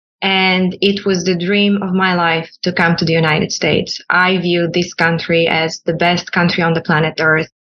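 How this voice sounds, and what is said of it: Bulgarian accent. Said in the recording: “I was born in Sofia, Bulgaria. You can probably tell there's an accent when I speak.”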